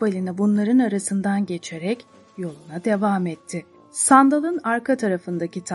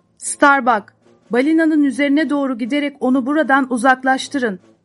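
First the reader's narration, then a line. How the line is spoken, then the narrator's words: Shouted. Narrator (Turkish): diye bağırdı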